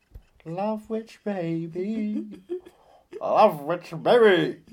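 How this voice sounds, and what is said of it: Imitates another person's singing voice. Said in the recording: “That's my French Schneider. It's not the best impression. It's more of the feeling of rather than a voice”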